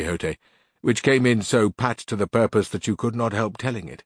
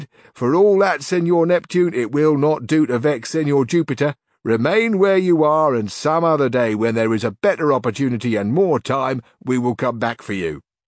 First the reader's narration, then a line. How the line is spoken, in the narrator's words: the governor and the bystanders laughed, and at their laughter the chaplain was half ashamed, and he replied